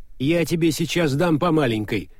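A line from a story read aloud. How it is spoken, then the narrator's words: Aunt snapping sharply. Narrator (Russian): прикрикнула тетя Женя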